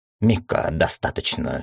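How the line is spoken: Angry exhaled words. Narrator (Russian): сердито выдохнула Корнелла

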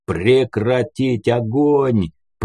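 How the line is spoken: Thundering deep forest-spirit bass. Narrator (Russian): прогремел бас лешего, словно глаз господень

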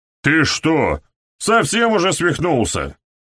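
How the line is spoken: Yelling. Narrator (Russian): заорал Уоррен

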